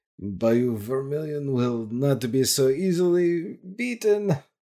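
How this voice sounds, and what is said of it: Put-on Louisiana Creole French accent. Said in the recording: “slips into a um, French accent ... Louisiana Creole ... sounds very Russian ... Sounds like a Nosferatu to me”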